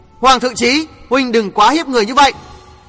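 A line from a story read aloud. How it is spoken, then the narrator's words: Alarmed loud shout. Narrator (Vietnamese): Mặt biến sắc, Đinh Hồng hét lớn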